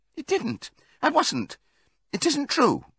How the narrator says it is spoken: cried Molly

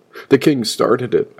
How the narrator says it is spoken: begged

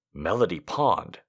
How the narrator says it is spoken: the doctor murmured

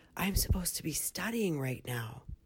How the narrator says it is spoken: whispered

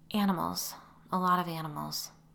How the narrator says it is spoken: said sadly

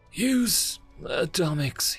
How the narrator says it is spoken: he whispered

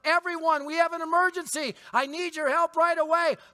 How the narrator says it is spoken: You yell

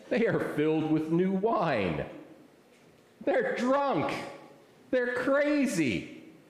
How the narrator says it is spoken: others, mocking, said

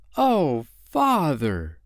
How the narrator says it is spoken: Wendy exclaimed

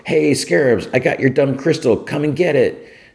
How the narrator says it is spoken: Fionna runs across the street and yells

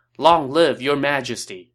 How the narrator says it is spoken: all the troops shouted

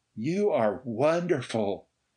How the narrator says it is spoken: she gasped to Ray

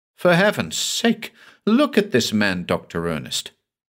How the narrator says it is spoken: exclaimed

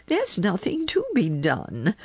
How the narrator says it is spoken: said the little woman calmly

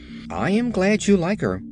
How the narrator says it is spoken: said the Scarecrow in a satisfied tone

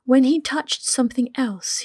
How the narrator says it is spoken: he cried out

